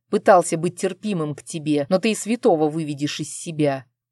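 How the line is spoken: Growling. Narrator (Russian): прорычал он

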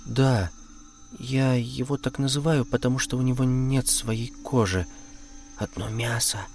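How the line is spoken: Barely audible. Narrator (Russian): еле слышно сказала Марина

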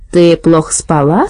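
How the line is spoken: Calm, even, hard-of-hearing voice. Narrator (Russian): спросила бабушка Шарлотта спокойным ровным голосом глуховатого человека

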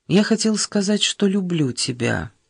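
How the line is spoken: Calm. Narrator (Russian): спокойно проговорил он

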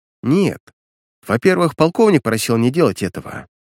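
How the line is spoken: Plain. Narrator (Russian): ответила ей Аня

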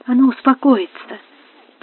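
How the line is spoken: Whisper, young woman. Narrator (Russian): прошептала молодая графиня

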